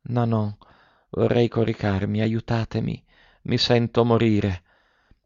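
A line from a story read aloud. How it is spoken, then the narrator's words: Very weak murmur. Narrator (Italian): Con voce debolissima, ella mormorava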